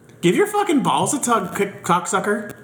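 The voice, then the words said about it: Put-on Canadian accent. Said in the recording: “are you trying to use an excuse to use your Canadian accent? Just do it. ... I'll rate that a 7.”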